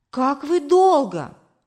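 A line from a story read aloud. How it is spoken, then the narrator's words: Exclaiming. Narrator (Russian): воскликнула мама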